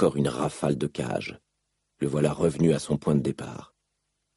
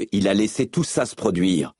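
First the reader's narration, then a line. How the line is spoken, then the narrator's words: Barked while banging bars. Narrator (French): aboya en se retournant pour cogner les barreaux à l'aide de ses mains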